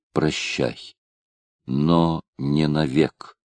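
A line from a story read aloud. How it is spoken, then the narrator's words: Very quiet, intimate. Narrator (Russian): сказал, но так тихо, что она одна могла слышать его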